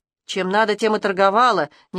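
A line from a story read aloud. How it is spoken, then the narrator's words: Reluctant grumble. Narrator (Russian): неохотно пробурчала Ирка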